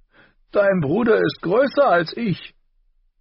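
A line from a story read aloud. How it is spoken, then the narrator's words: Laughing. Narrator (German): Tyrion lachte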